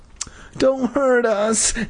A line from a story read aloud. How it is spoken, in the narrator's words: Nat wailed